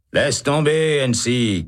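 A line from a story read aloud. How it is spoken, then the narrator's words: Shouting. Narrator (French): crie Holt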